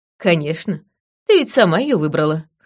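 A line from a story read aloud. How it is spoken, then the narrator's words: Snort. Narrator (Russian): хмыкнула я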